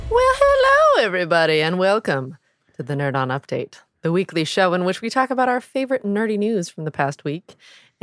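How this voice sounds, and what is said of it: Slight Midwestern American accent. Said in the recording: “your Midwest accent coming out? ... A little bit.”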